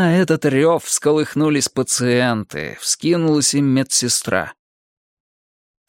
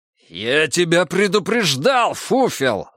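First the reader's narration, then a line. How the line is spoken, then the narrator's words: Roaring. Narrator (Russian): взревел санитар Егор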